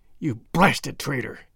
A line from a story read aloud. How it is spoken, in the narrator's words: hissed McGinty through his closed teeth